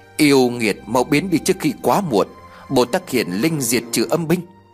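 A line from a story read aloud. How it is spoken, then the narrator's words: Muttered incantation. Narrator (Vietnamese): miệng tôi lẩm bẩm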